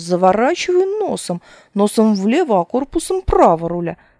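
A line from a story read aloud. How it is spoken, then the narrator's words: Inspired shouting. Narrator (Russian): вдохновением бурля он кричал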